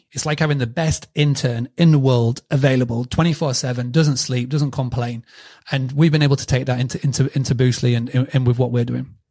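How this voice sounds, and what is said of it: British accent. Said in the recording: “his accent just sounds so trustworthy. Like, everything sounds smarter when it's coming from a Brit”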